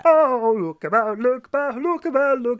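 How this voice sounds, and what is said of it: Imitates a soul singer's voice. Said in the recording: “Is that you doing an impression? ... It's not bad. ... It's bad.”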